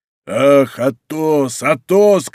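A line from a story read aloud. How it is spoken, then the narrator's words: Anguished shouting with groans. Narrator (Russian): кричал он с раздирающими стонами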